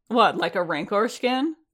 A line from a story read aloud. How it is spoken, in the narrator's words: the Narshadan laughed